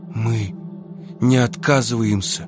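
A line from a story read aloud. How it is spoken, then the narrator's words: Through gritted teeth. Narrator (Russian): повторил он сквозь зубы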